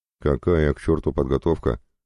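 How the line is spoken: Scoffing. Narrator (Russian): хмыкнул Толик

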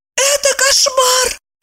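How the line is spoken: Exclaiming woman. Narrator (Russian): воскликнула Евдокия

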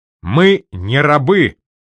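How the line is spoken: Proud bark. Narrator (Russian): гордо рявкнул

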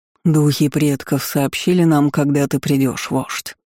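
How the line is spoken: Deep rich bass. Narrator (Russian): густым, сочным басом заговорил шаман

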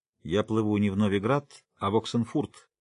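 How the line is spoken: Dry statement. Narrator (Russian): сухо известил Пит

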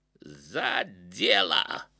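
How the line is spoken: Barked roughly. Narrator (Russian): рявкнул Ахмат

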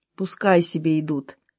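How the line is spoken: Calm reply. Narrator (Russian): отозвался Кохран, спокойно глядя вперед

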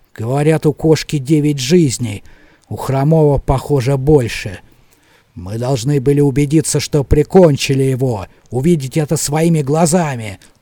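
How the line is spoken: Angry grumbling raven. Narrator (Russian): зло проворчал ворон

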